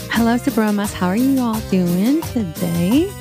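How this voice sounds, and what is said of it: Close, whispery sultry voice. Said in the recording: “You sound so near me ... You sound like you're whispering into my... ... This is my sexy girl voice.”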